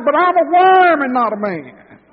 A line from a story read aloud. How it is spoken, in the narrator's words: On the cross he cried